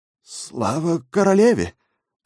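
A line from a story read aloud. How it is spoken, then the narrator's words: Stunned babbling. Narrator (Russian): ошеломленно пролепетал он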